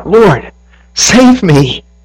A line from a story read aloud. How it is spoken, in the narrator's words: he was afraid, beginning to sink, cried out